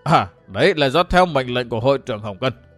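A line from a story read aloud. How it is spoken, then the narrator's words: Trembling, fearful reply. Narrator (Vietnamese): Tên Lạc Đà Ôn Thuần lại run run thân mình đáp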